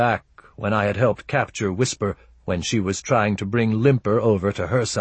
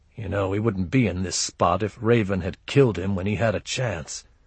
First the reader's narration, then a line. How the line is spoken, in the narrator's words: I muttered